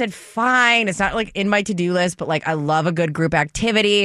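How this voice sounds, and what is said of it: Usual voice. Nothing is said of it.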